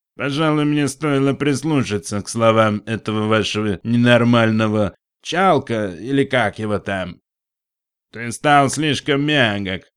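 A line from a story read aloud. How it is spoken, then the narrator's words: Nasal drawl. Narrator (Russian): прогнусавил верблюд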